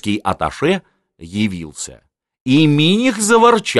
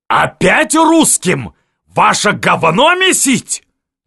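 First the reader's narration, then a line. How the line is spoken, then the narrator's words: Bark. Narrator (Russian): рявкнул Миних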